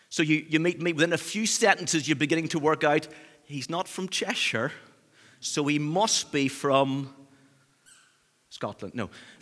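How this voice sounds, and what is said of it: Northern Irish accent. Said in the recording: “my Northern Irish roots ... I get mixed up for Scottish quite a lot ... this accent. It's pretty distinctive, it's pretty obvious where I come from.”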